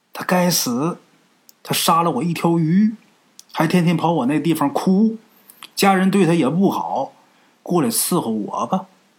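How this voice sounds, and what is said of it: Old woman's voice. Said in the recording (Chinese): “一个老太太的声音说”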